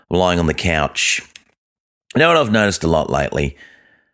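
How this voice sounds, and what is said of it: Very deep, congested voice. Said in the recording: “I've got a very deep voice ... I've got a bit of a cold.”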